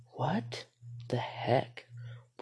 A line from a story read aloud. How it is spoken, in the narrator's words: whispered her friend Matt